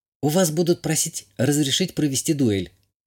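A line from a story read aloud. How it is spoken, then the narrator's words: Whisper. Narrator (Russian): шепнула Азалия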